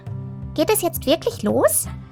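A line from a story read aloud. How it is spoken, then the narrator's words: Squeaky butterfly voice. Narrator (German): ein Schmetterling piepste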